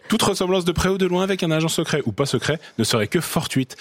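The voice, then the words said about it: Bad put-on Swiss accent. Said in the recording (French): “une parodie de James Bond. À la sauce suisse. Pardon pour cet horrible accent.”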